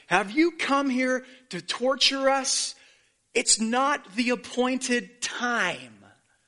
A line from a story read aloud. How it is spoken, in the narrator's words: They shouted